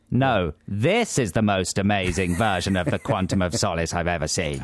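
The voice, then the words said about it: Imitates another person's voice. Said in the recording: “your Simon Cowell impression”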